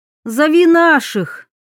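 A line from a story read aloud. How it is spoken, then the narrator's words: Shouted. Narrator (Russian): крикнула Диана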